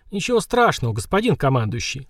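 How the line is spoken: Calm reply. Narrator (Russian): спокойно ответил тарлайдец

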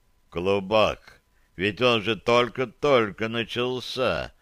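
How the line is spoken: Old man muttering. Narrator (Russian): пробормотал старый солдат

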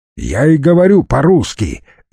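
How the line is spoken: Barked. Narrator (Russian): рявкнул Костолом

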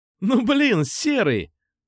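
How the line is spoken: Reproachful exclamation. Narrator (Russian): с укором воскликнул он

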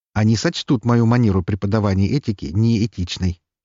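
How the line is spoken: Giggling. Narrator (Russian): хихикнул я

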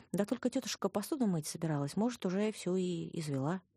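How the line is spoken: Plain. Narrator (Russian): ответила белобрысая

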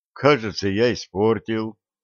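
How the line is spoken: Dejected voice. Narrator (Russian): упавшим голосом проговорил Коля

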